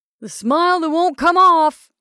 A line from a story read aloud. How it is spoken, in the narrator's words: somebody yelled